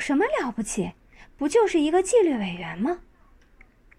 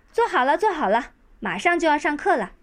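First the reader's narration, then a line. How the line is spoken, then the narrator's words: Shouting. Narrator (Chinese): 马小跳大喊大叫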